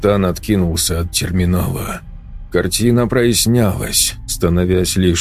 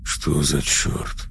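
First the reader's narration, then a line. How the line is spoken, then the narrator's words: Muttering. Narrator (Russian): пробормотал он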